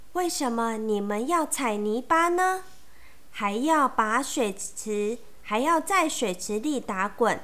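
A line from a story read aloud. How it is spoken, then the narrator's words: Timid soft question. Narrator (Chinese): 小瓢虫鼓起勇气 小声的问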